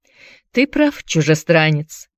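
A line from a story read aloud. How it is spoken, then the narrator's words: Calm. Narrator (Russian): спокойно произнес он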